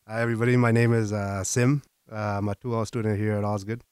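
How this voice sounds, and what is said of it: Rough, hoarse sick voice. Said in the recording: “I don't know if you can tell from my voice... It's getting rough out here. I got bronchitis.”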